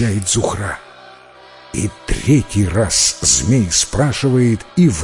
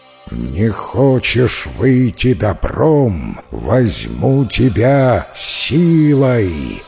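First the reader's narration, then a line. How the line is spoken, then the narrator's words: Menacing thunderous serpent voice. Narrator (Russian): Грозно загремел черный змей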